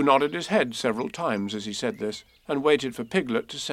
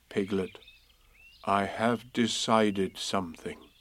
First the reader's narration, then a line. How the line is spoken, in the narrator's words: Pooh said in a very solemn voice